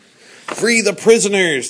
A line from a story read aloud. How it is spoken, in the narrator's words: they cried